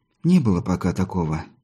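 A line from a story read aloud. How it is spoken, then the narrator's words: Sighing, unable to hold back. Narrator (Russian): не выдержав, вздохнула Голуба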